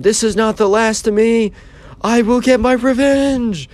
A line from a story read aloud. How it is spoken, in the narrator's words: he was screaming at Sam